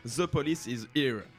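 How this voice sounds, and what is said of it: Mock English accent, French speaker. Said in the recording (French): “magnifique accent de ma part”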